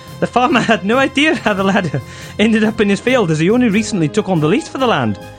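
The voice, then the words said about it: Poor Scottish accent, old-woman voice. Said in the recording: “Apologies to any of our Scottish listeners there. ... That was appalling. ... I thought the accent was good, but ... you did sound like an old woman, Mrs Doubtfire specifically. ... I don't normally do just a random Scottish farmer.”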